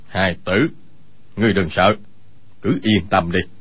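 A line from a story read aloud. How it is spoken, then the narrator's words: Lowered, serious voice. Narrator (Vietnamese): vẻ tươi cười lập tức thu hết lại, hạ giọng nói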